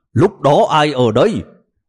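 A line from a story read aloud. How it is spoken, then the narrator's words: Angry. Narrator (Vietnamese): phó cục trưởng Trịnh tức giận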